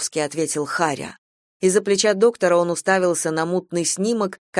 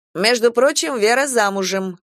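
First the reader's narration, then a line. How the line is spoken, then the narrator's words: Smirking grunt. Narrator (Russian): хмыкнул ООО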